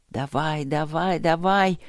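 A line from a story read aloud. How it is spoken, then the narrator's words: Muttered. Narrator (Russian): бормотал Черныш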